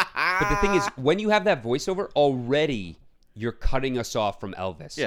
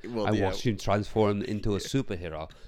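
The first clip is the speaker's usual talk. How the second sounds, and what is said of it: Attempted Colonel Parker accent impression. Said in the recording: “Colonel Parker said, I watched him transform with this ridiculous accent. I can't even do it... I don't know what accent I'm doing. It's not his, but it's probably better.”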